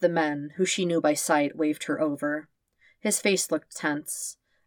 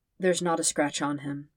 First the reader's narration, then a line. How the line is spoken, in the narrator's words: the man said, his voice sad and respectful